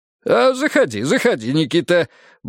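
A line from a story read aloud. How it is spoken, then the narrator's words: Cheerful permission. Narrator (Russian): бодро разрешил Рыков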